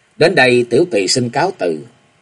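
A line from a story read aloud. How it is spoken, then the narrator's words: Smiling, continuing. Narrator (Vietnamese): Lục Tỉnh, nàng mỉm cười tiếp lời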